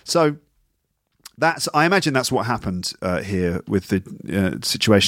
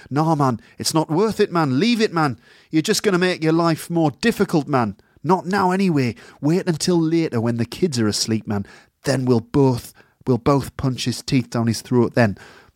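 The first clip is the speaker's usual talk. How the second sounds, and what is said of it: Put-on soft Geordie accent. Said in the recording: “in that nice soft Geordie accent he's got ... That was a Geordie accent, by the way.”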